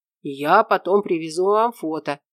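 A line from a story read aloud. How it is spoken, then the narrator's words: Breathy exhale. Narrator (Russian): выдохнул Валерьян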